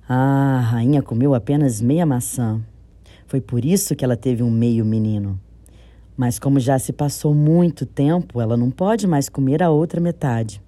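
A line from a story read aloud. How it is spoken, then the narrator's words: Sighing. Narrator (Portuguese): Arife, o sábio, deu um suspiro e disse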